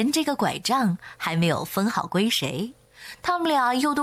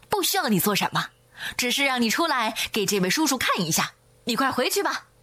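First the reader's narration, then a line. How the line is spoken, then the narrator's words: Displeased, hurried. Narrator (Chinese): 老大不乐意了，赶紧说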